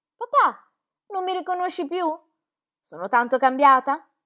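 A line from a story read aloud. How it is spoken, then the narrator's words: Shouted. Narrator (Italian): gridò Clara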